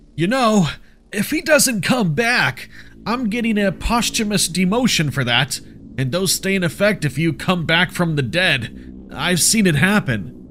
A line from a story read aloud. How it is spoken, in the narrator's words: Joseph shouted